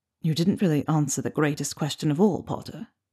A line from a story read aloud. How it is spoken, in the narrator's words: Draco whispered